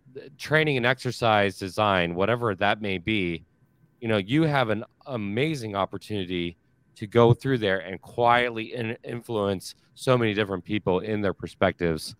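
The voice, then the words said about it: Strained, fading voice. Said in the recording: “My voice is dying over here.”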